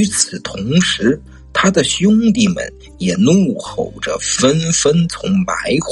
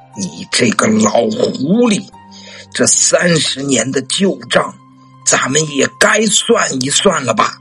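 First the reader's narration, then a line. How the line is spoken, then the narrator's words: Unhurried, measured. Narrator (Chinese): 司马青烟不急不慢地说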